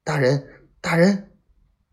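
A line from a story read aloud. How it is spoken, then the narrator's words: Hurried urgent shout. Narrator (Chinese): 皮廷相慌忙忙喊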